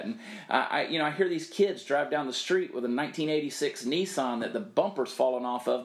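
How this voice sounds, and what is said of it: Southern American accent. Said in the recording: “people started criticizing my accent. ... I'm unapologetically Southern.”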